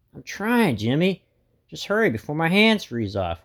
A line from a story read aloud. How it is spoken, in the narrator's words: whines Buttons